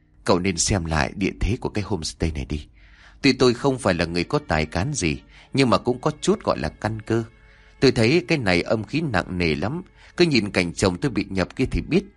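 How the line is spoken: Very soft gentle voice. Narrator (Vietnamese): bà ta nói với một giọng điệu hết sức nhỏ nhẹ

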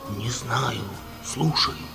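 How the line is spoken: Whisper. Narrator (Russian): прошептал Ульяне

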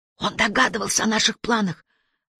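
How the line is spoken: Whispered. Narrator (Russian): прошептал Уоткинс

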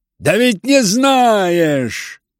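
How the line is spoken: Impatient shout. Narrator (Russian): крикнул на него в нетерпении Рогожин

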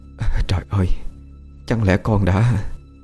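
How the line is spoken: Trembling question. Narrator (Vietnamese): Bà vú run run hỏi lại cô

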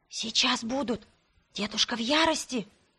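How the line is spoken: Whisper. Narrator (Russian): прошептала Лонна

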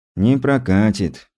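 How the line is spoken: Sad sigh. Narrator (Russian): печально вздохнул Стас

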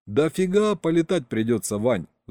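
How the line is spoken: Sighing. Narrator (Russian): вздохнул Саня

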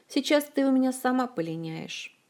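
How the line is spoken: Sad, unthreatening threat. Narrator (Russian): грустно и совсем не страшно пригрозила Диана

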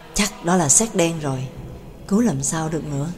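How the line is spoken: Muttered, near whisper. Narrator (Vietnamese): Xin lẩm bẩm gần như thì thầm

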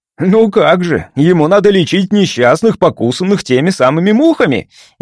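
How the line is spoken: Sarcastic retort. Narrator (Russian): ехидно возразил Парсел

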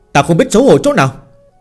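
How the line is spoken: Angry indignant scolding. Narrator (Vietnamese): Phương Hành tức giận bình bất bình mắng

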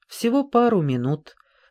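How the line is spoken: Calm. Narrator (Russian): спокойно отозвался Раффлз

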